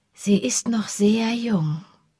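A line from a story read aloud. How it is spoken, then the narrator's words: Gentle voice. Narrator (German): sagte sie mit sanfter Stimme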